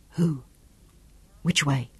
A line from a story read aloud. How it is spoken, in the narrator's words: Sean whispered